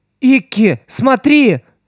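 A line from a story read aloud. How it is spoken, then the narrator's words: Shouted. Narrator (Russian): закричала Стелла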